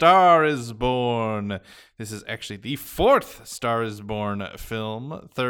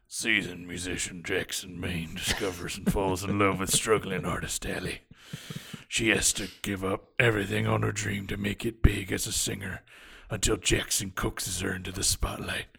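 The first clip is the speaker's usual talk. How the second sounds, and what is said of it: Bradley Cooper's Jackson Maine voice. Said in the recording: “I'm going to do it in Bradley Cooper's Jackson Maine voice, which I've been doing all week ... he really hurt himself doing that voice”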